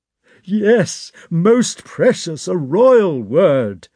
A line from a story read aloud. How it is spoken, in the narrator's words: said Count Rostov with a sob